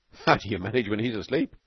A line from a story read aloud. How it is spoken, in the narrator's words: said Crandall, chuckling